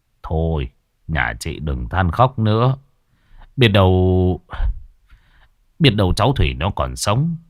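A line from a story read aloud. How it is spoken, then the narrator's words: Sighing. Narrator (Vietnamese): ông trưởng họ thở dài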